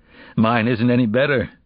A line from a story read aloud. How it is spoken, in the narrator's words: said with a faint laugh